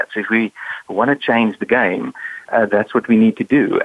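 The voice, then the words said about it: South African accent. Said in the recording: “you have such a charming accent ... this is not a Bostonian accent ... I was born and raised in South Africa”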